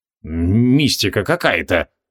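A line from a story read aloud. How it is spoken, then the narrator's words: Muttering. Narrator (Russian): пробормотал отец Бенджамин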